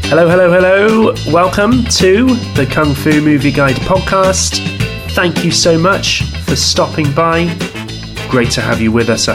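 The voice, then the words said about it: Sick, under-the-weather voice. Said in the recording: “I've been hit by the lurgy, as you can probably tell from my voice today. Feeling a little bit under the weather”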